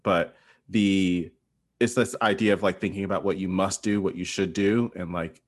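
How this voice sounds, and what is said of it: Speaks with a noticeable accent. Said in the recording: “I think it's because of my accent”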